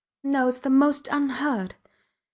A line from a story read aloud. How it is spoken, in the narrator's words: mumbled